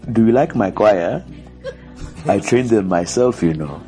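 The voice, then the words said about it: Noticeable accent. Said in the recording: “You can hear the accent.”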